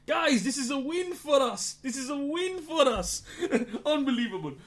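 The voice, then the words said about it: Attempted French accent, excited shouting. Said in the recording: “Don't try to do a French accent again”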